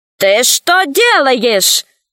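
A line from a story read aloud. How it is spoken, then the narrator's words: Shout. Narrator (Russian): закричал Кусандра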